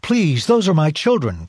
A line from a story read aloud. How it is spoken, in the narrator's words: cried Ruth's mother